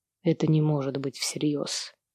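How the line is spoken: Quiet. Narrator (Russian): тихо говорит он

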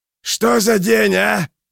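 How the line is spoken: Screaming in face. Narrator (Russian): завопил он ей в лицо

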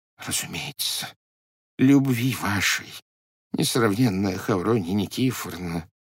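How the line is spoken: Whispered. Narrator (Russian): шепотом произнес Попович

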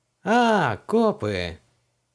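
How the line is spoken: Knowing drawl. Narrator (Russian): понимающе протянул мелкий

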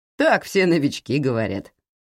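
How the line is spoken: Chuckling. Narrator (Russian): хохотнул он

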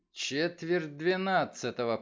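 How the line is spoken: Muttering. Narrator (Russian): пробормотал Мейсон

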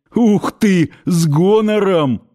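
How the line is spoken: Chuckling. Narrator (Russian): хохотнули в ответ

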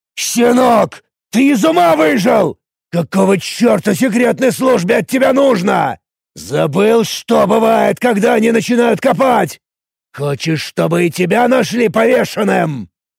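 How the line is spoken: Furious spluttering shout. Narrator (Russian): Эд орал, брызжа слюной

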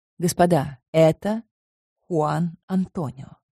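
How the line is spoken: Plain. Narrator (Russian): сказала я

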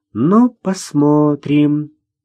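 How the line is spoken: Drawn-out drawl. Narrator (Russian): протянула Ксюша

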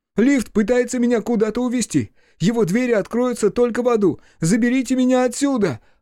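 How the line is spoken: Yelling. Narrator (Russian): орал Хаси

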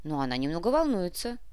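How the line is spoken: Amused snort. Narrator (Russian): хмыкнул Артем

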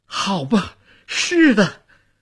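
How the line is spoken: Carried-away shout. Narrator (Chinese): 夫人忘情地喊着

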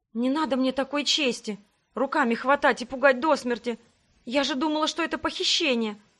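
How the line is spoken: Muffled whisper into shirt. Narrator (Russian): прошептала я куда-то в рубашку Себастьяна

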